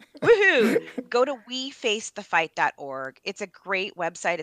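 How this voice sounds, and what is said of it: Upbeat salesperson pitch voice. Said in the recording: “put on my sales voice,”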